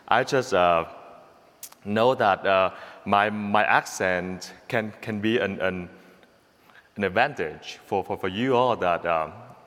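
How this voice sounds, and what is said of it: Vietnamese-accented English. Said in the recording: “Vietnamese accent... my accent can keep you all awake”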